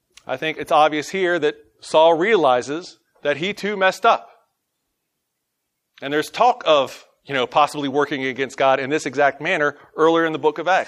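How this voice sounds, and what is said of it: Southern US twang accent. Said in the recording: “my southern twang”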